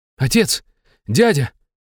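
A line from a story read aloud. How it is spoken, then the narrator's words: Exclaiming. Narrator (Russian): воскликнул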